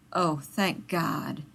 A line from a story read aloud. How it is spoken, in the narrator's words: Rodney said hoarsely